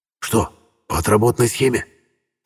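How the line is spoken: Whispered question. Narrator (Russian): шепотом для проформы спросил Фомин Хук

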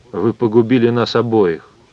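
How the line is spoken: Fairly calm. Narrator (Russian): сказал Майк сравнительно спокойно

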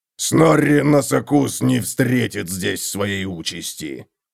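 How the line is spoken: Growling. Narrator (Russian): прорычал Готрек

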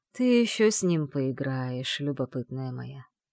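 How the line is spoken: Soft purr. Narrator (Russian): тихо мурлыкнул ей на ухо древнейший

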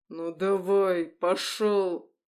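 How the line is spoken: Growling. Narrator (Russian): рычал

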